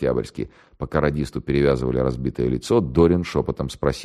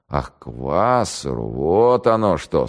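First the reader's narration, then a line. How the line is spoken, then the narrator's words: Casual drawl. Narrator (Russian): старший майор небрежно протянул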